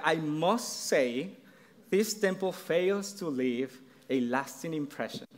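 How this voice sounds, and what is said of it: Thick Mexican accent. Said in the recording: “my thick Mexican accent”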